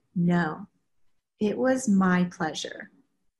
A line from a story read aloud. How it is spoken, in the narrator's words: immediately and firmly responded